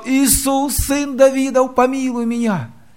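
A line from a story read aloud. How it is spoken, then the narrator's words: Shouting even louder. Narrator (Russian): А он еще громче кричал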